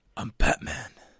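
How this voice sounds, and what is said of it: Gravelly Batman character voice. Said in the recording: “You sound pretty good. That's a real good impression there.”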